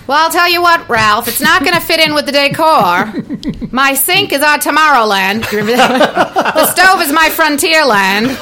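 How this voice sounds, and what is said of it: Impression of Alice from The Honeymooners. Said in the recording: “do an impression for me? I would like to hear Alice. ... from the Honeymooners”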